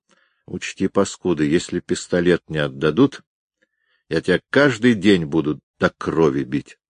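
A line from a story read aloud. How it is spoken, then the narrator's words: Menacing whisper. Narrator (Russian): Витька шептал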